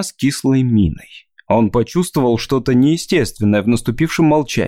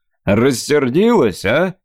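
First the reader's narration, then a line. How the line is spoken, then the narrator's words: Contemptuous snort. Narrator (Russian): с презрением хмыкнула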